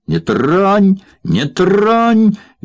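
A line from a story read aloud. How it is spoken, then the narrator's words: Shrieking. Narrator (Russian): визжал Захар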